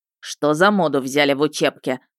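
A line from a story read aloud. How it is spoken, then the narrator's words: Grumbling. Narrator (Russian): ворчал он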